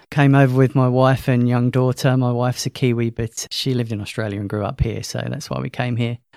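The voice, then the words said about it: British London accent. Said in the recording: “As you could probably guess from my accent, I'm not from Australia. Originally from London”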